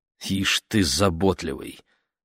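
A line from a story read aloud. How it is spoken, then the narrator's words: Muttering. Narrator (Russian): пробормотал мистер Уокер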